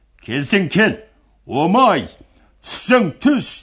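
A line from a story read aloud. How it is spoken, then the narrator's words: Group shouting back. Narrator (Kazakh): Құнанбай жігіттері қарсы айғайлап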